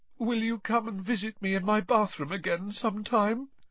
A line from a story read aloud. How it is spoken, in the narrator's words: Moaning Myrtle asked mournfully